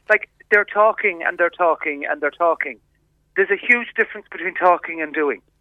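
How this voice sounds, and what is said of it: Animated, annoyed speaking voice. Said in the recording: “you can probably hear it in my voice ... I don't think I've ever heard you quite so animated and annoyed.”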